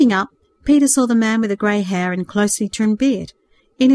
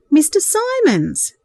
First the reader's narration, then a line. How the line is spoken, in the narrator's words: exclaimed